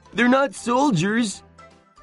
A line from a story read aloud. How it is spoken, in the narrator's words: cried Sancho